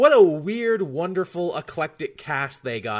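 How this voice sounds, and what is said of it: Usual voice. Nothing is said of it.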